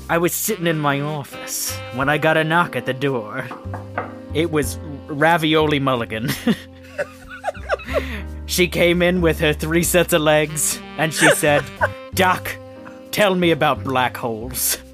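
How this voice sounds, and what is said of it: Noir detective narrator accent. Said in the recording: “a good accent of some sort ... It's my noir accent.”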